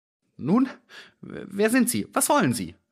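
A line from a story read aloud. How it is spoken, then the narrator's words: Unsure voice. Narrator (German): fragte er mit unsicherer Stimme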